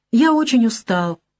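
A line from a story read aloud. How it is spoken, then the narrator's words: Soft, almost feminine voice. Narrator (Russian): говорит Ян своим мягким, почти женственным голосом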